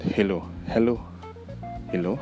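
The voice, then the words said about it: Accented pronunciation of 'hello'. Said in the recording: “But we do have an accent. ... Yeah, some sort of like that.”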